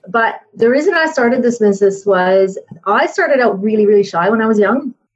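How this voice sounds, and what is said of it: Canadian accent. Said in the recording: “I am actually Canadian. I don't know if you can tell from my accent”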